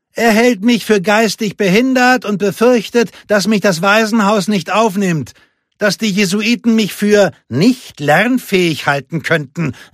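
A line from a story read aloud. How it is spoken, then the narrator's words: Calling out. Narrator (German): rief Lupe ihrem Bruder zu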